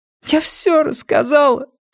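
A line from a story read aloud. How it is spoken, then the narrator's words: Sobbing. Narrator (Russian): всхлипнула София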